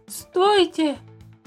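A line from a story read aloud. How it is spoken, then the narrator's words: Exhausted shout. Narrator (Russian): из последних сил закричал Туупань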